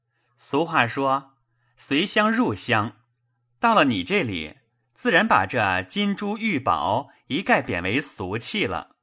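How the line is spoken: Laughing. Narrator (Chinese): 宝玉笑道

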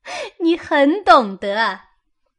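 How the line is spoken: Laughing. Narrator (Chinese): 湘云笑道

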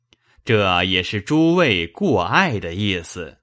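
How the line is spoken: Laughing. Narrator (Chinese): 贾政笑道

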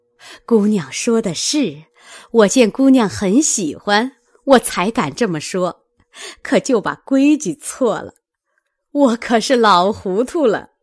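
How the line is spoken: Hasty laugh. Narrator (Chinese): 老祝妈忙笑道

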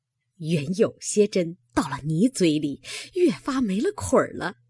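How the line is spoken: Laughing. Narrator (Chinese): 那鲍二家的笑道

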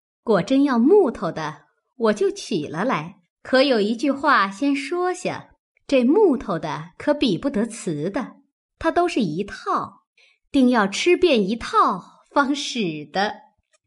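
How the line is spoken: Hasty laugh. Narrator (Chinese): 凤姐儿便忙笑道

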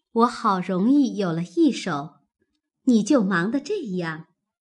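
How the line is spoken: Laughing. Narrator (Chinese): 宝钗笑道

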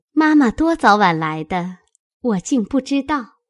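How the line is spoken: Laughing. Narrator (Chinese): 宝钗笑道

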